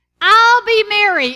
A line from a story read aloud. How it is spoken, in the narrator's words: Imogene yelled